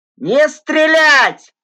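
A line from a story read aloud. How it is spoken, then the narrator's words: Hoarse yelling. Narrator (Russian): хрипло орал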